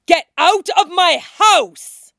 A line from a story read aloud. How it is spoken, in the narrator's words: shouts